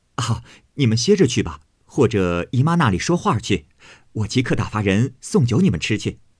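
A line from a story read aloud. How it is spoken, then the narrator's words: Laughing, urging. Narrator (Chinese): 探春又笑让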